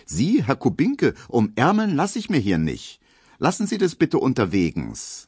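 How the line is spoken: Aloof call. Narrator (German): wird die ganz unnahbar und ruft

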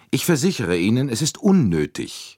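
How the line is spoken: Curt repetition. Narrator (German): wiederholte Andrenji schroff

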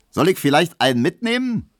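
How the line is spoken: Cheerful call. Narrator (German): rief der fröhliche Leichenkutscher

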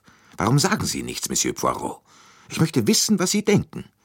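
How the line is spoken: Curt, sudden annoyance. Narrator (German): mit jähem Unmut fragte sie schroff

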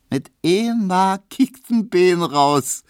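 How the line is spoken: Laughing shout. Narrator (German): rief Emma lachend

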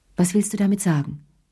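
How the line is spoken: Plain. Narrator (German): fragte sie schließlich

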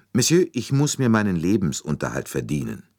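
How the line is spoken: Calm with hard edge. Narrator (German): Sie sagte ruhig, aber mit einer Spur von Härte in der Stimme

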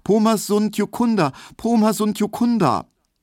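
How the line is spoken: High frightened repeated calling. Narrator (German): Er wusste nicht ein Wort und er rief nur immer wieder ganz hoch und ängstlich

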